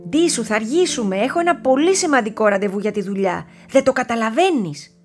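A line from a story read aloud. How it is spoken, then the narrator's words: Mother shouting. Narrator (Greek): φώναξε η μαμά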